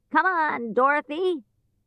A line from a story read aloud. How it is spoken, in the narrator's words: he shouted